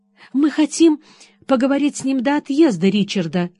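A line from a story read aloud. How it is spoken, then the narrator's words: Timid. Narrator (Russian): робко промолвила Ада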